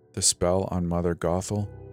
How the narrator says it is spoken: I whispered, my gut fluttering with excitement

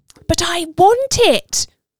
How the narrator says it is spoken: the toddler is shrieking

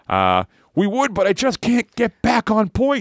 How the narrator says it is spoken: screamed Matt

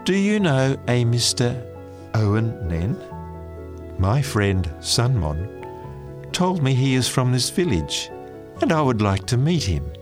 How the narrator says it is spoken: I smiled warmly at her and said

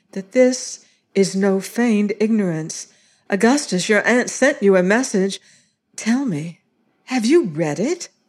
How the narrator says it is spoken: said anxiously

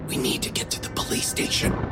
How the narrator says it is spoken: I whispered

